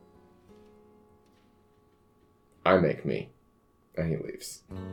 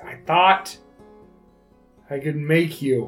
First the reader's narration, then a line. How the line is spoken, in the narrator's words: she shouts, she says